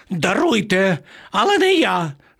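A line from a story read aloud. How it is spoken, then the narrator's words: Pitiful squeal. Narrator (Ukrainian): жалюгідно заверещав пан Марво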